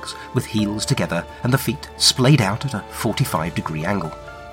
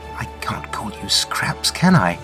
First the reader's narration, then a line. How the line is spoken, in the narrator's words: she murmurs